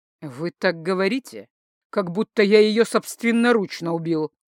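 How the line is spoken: Through gritted teeth. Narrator (Russian): процедил сквозь зубы Инор Брайнер

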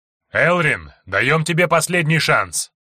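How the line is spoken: Barked shout. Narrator (Russian): гаркнул Амалис

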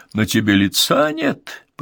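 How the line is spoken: Mouth full, merry chuckle. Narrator (Russian): проговорил он с полным ртом и весело хохотнул

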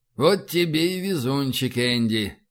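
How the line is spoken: Drawling. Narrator (Russian): протянул Файн

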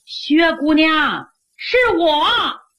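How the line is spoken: Calling from doorway. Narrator (Chinese): 紧跟着门口的喊

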